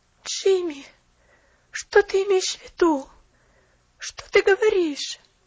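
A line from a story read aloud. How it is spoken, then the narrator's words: Pitiful pleading. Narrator (Russian): Жалостно взмолилась она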